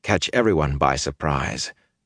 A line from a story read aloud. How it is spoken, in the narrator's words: he muttered fiercely